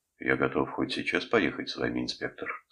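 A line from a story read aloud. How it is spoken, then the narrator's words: Calm. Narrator (Russian): сказал он спокойно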